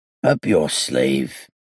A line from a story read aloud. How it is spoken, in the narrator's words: it said in a deep, hoarse voice